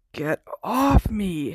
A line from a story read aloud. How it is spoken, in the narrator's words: Harry gasped